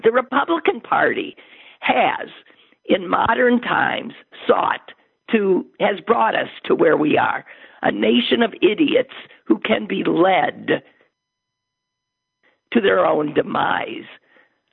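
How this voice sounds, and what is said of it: Hoarse, failing voice. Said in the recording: “I'm sorry, I'm losing my voice. ... Yes, you are.”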